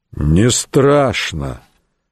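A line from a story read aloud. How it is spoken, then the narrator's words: Sudden, muffled. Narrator (Russian): вдруг глухо проговорил Самсон Медок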